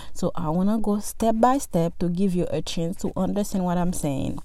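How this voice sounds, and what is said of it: Speaks with a noticeable accent. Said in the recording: “with my accent, if I say too many names, you might get lost”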